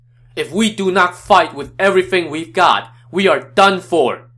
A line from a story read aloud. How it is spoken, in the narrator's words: Yuan Shao shouted